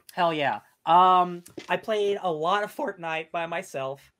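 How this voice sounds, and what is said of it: Voice cracks, sounds near crying. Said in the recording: “That almost sounded like I started crying. Does my voice crack?”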